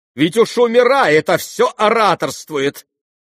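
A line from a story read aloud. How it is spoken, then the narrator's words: Horrified exclamation. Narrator (Russian): воскликнула Лизавета Прокофьевна, чуть не с ужасом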